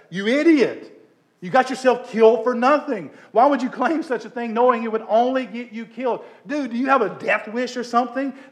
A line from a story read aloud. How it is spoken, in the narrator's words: yell in disgust